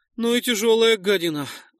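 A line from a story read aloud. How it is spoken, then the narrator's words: Strained exhale. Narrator (Russian): выдохнул Нойс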